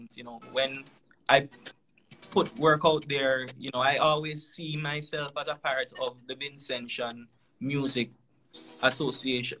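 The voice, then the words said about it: Speaks with a distinctive accent. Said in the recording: “People say that they love your accent.”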